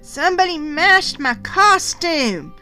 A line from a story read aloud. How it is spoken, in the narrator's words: I wailed in dismay